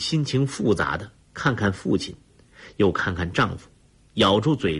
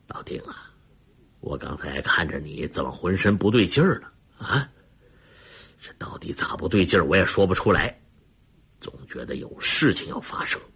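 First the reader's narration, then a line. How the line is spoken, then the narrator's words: Low voice. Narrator (Chinese): 李云龙低声说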